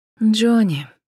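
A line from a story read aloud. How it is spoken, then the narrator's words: Sigh. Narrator (Russian): вздохнула Джен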